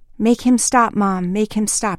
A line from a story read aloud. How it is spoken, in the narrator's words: she cried